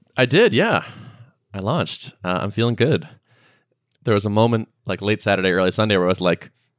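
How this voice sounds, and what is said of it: Unusually low, deep morning voice. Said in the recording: “I'm low today... not mentally, just vocally... The sexy voice has come out... I'm a real bass today in the morning kind of voice”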